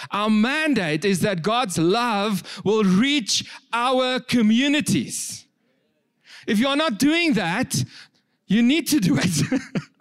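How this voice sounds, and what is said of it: Raised, loud preaching voice. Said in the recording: “I know I'm raising my voice, so I'm not angry”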